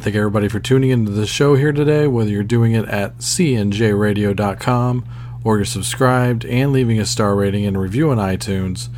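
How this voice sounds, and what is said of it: Sick, under-the-weather voice. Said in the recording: “as you can probably tell by my voice, I'm a little under the weather”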